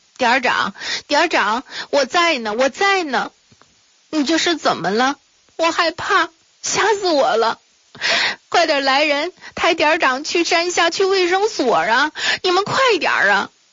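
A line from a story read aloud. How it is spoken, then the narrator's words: Tearful crying. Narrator (Chinese): 秦梅一边哭着，流着泪水 说道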